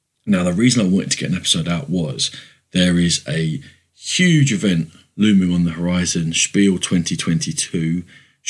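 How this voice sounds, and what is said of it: Croaky, under-the-weather voice. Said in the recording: “my voice is a bit croaky. I'm slightly under the weather”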